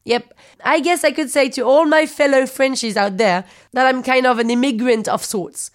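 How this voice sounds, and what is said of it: French accent in English. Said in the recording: “Parisian ... I can understand you don't trust me because of my accent”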